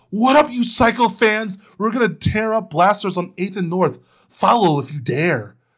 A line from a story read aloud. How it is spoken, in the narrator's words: Lin shouted